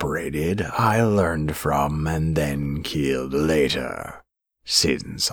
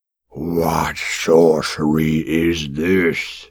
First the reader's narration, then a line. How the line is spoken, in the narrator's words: roared